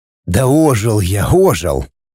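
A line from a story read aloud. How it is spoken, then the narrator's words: Grumbled. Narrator (Russian): проворчал я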